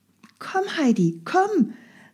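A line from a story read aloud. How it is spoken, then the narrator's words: Calling out toward her. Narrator (German): rief ihr Clara entgegen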